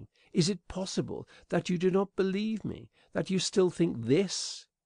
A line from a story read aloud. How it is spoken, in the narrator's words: she added, faltering